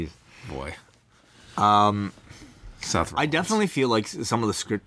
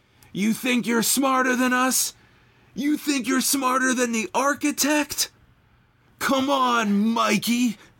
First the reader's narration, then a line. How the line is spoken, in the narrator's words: yelling